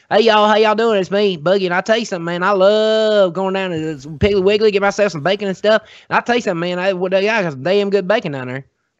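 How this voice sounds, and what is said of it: Exaggerated southern accent character voice. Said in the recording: “I grew up with a southern accent, and I do it like with my Jesse character”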